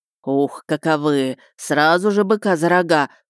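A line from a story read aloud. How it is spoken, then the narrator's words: Creaky voice. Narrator (Russian): проскрипел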